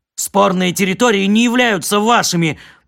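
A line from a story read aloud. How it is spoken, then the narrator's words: Shouted back. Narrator (Russian): прокричал в ответ Кор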